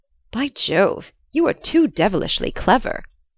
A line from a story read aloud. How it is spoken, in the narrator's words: he exclaimed